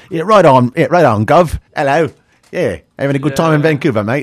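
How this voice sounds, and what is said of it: Shoddy imitation English accent. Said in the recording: “my shoddy English accent”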